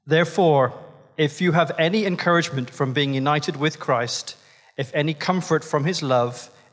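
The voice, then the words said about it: Irish accent. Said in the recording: “in his beautiful Irish accent”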